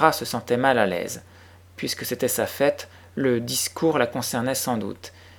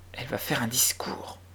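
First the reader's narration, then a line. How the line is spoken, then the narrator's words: Murmured. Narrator (French): murmura l'une des élèves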